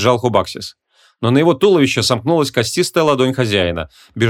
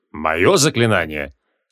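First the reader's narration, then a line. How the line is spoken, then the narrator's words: Dry question. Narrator (Russian): Сухо уточнил Креол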